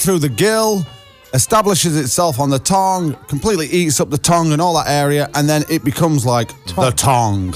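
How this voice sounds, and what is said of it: Sheffield English accent. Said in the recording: “He's from Sheffield, he's got a funny accent.”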